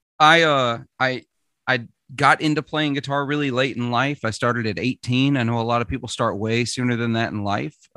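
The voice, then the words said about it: Mild Southern US accent. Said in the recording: “I'm from Mississippi. For those that don't know, if you can't hear it in the accent ... I worked very hard to get rid of my accent ... ashamed of my Southern accent, but I've since allowed it to come back ... you work to not really have the accent, but it's kind of there”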